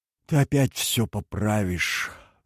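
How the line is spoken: Sighing. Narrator (Russian): вздохнула Лилиан

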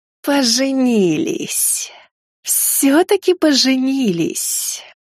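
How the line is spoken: Snakelike hiss. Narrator (Russian): С губ Райны сорвалось настоящее змеиное шипение

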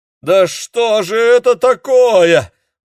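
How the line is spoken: Howling wail. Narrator (Russian): взвыл дядюшка Демин

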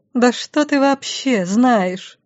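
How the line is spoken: Hissing up close. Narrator (Russian): в самое лицо прошипеть

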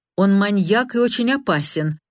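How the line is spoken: Sharp statement. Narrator (Russian): резко произнесла Милдред

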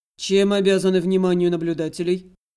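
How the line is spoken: Dry, curt question. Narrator (Russian): Сухо бросил я вопрос

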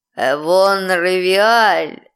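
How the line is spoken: Growling elf prince. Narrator (Russian): прорычал эльфийский принц

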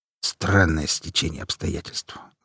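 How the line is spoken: Thoughtful mutter. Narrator (Russian): задумчиво пробормотал Иван Сергеевич

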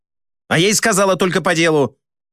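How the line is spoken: Barking snap. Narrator (Russian): рявкнула она

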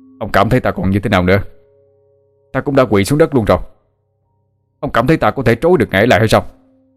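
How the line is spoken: Angry retort. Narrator (Vietnamese): Chu phục sinh quát ngược lại rùa thần

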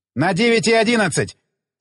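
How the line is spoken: Shout. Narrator (Russian): закричал

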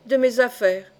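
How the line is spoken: Cold stranger's reply. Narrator (French): répliqua froidement l'inconnu

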